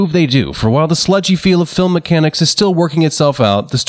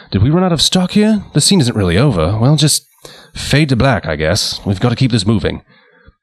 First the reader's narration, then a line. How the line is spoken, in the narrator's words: director James Whale muttering to editor Clarence Colster